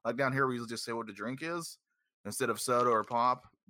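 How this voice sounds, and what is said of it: Southern American accent. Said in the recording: “Down here in the South, I don't know if you can tell from my glorious accent”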